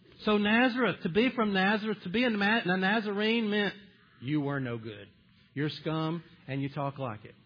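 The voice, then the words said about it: Southern American accent. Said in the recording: “you Southern people ... people start talking about my accent”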